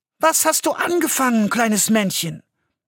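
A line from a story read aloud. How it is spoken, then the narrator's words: Plain question. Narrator (German): fragte Rosenrot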